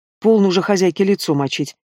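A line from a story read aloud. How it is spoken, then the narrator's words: Angry reproach. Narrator (Russian): Сердито попенял он Лукерье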